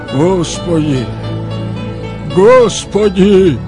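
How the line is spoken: Loud, repeated. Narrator (Russian): Михаил громко произнес дважды

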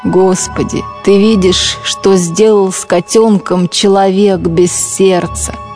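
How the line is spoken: Plain. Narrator (Russian): сказал Эрвин

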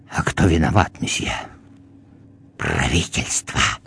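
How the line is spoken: Clerk whispering. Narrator (Russian): Приказчик прошептал

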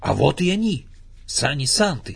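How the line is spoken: Joyful exclamation. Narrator (Russian): радостно воскликнул Винни-Пух

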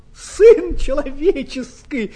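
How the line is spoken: Exclaiming. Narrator (Russian): воскликнул он

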